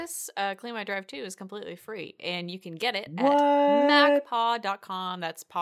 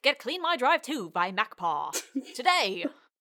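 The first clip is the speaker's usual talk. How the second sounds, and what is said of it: Old-time 1920s announcer voice. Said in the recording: “my 1920s announcer voice”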